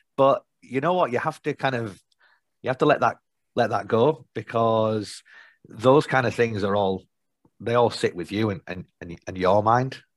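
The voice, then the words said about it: Nasal Yorkshire accent. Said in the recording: “nasal Yorkshire accent”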